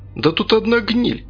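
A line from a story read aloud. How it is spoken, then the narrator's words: Exclaimed. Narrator (Russian): воскликнул кто-то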